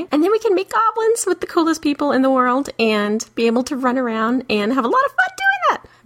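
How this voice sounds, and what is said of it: Squeaky high-pitched voice. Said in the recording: “I'm sorry about my squeaky, squeaky voice.”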